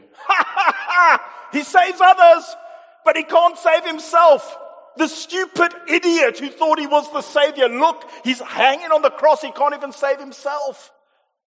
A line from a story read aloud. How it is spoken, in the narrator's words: people mocking him, shouting at him